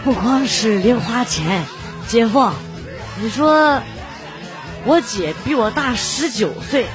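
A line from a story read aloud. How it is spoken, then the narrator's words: Child, hushed voice. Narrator (Chinese): 这孩子……压低声音说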